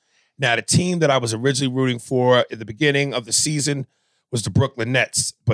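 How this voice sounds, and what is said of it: Usual voice. Nothing is said of it.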